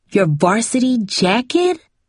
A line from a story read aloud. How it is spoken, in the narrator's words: Cindy gasped